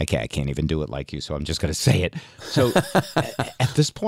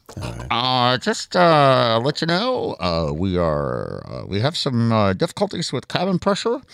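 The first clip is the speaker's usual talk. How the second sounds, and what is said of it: Imitates another person's voice. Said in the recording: “do my best Ed Kelly impression”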